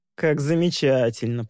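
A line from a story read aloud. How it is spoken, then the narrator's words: Drawling. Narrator (Russian): протянул Маркус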